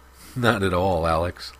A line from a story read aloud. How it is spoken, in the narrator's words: laughed Oscar